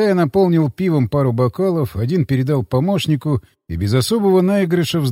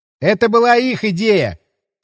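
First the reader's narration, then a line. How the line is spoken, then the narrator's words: Distant shout. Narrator (Russian): крикнул он уже оттуда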